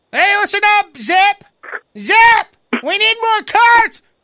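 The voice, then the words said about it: Yelling bossy manager voice. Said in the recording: “you're yelling”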